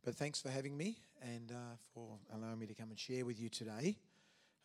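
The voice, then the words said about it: Weakened voice, not fully back. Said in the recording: “excuse my voice today because I've uh, been battling a cold all week and it caught me. So uh, finally got my voice back a little bit today.”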